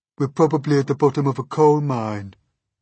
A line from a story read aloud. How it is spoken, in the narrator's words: the earthworm said gloomily